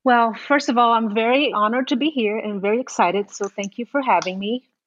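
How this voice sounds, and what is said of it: Brazilian accent. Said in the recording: “she's from Brazil, which you're going to be able to pick up in her accent”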